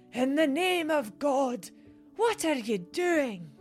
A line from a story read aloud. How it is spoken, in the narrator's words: Horrified, from the depths of her ancient lungs bellowed